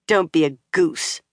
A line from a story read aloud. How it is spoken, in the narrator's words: Nynaeve said sharply